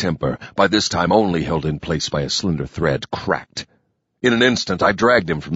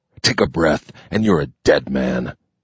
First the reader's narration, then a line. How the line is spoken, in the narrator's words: growled with a voice of doom